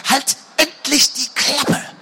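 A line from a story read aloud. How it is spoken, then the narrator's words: Hissing angrily. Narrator (German): fauchte Elissa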